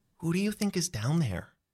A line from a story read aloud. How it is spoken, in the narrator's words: You whisper